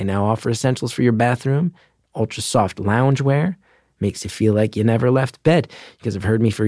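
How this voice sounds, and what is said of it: Usual voice. Nothing is said of it.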